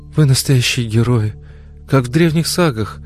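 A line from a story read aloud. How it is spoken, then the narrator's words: Breathless. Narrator (Russian): выдохнула она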